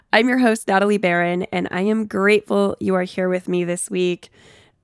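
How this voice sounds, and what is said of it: Sick, congested voice with sniffles. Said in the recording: “As you might be able to tell from my voice, I'm a little under the weather, so apologize for a sniffle here and there”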